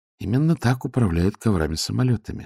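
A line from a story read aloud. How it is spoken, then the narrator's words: Calm. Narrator (Russian): спокойно сказал лорд-ветинари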